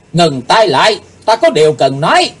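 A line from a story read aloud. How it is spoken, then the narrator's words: Deep-voiced shout. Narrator (Vietnamese): Chàng nắng trầm rồi quát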